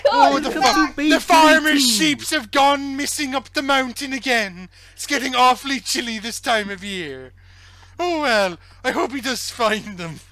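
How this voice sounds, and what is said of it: Good put-on Welsh accent. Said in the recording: “Such a good Welsh accent, actually.”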